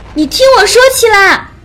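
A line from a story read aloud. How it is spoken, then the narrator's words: Shouting over loud noise. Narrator (Chinese): 在狂暴的魂力和巨响中，朝着七拉大喊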